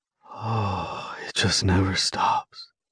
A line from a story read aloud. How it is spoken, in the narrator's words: says softly